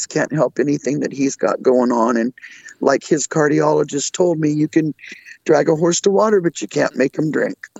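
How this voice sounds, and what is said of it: Raspy, rough voice. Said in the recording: “raspy, crappy voices from that thyroid removal”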